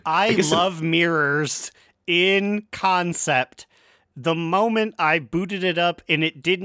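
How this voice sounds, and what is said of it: Usual voice. Nothing is said of it.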